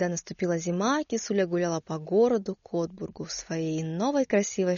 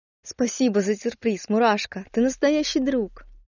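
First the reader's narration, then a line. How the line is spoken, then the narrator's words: Joyful, tearful. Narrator (Russian): Кисуля вытерла слезы и радостно сказала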